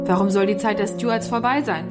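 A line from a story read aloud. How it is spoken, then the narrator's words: Plain question. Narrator (German): fragte Dougal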